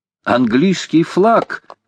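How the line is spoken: Shouting. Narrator (Russian): крикнул Джон Манглс

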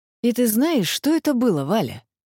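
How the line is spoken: Tired rumbling. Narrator (Russian): устало рокотал Иваныч

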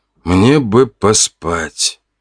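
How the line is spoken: Young man's groan. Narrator (Russian): простонал парень

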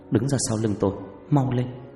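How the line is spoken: Soft. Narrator (Vietnamese): Loan khẽ nói

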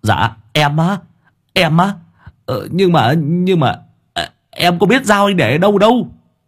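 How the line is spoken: Stammering. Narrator (Vietnamese): thằng Sáu Bưởi lại lắp bắp

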